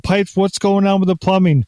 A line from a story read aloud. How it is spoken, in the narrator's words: Maria yells up the stairs